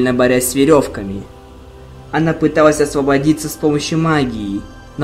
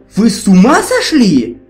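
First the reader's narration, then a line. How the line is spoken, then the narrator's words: Exclaiming. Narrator (Russian): воскликнула Твайлайт, извиваясь, пока ее несли вверх ногами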